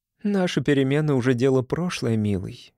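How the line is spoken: Tender mother's voice. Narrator (Russian): нежно сказала мать

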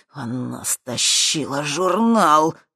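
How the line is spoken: Strained wheeze. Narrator (Russian): просипел Туз, силясь подняться с пола

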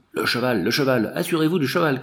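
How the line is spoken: Shouting. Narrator (French): cria Séguin

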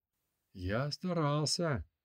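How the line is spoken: Whispered. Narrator (Russian): прошептал Радиф

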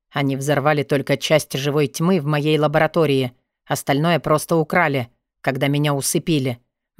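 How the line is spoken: Gloomy. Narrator (Russian): мрачно сказал Вёлвинд

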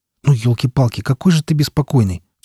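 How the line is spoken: Angry grumble. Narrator (Russian): в сердцах проворчал я

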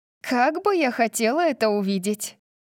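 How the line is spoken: Laughing. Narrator (Russian): засмеялась Тори

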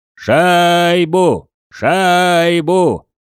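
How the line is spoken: Yelling. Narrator (Russian): Орал Серж

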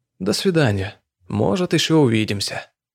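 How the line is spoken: Soft insinuating inspector. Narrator (Russian): Инспектор мягко, вкрадчиво произнес

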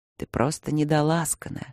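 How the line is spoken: Said in a muffled voice. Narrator (Russian): сказал он глухо ей макушку

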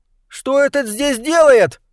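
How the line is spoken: Shrill squeal. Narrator (Russian): взвизгнул Уилбур

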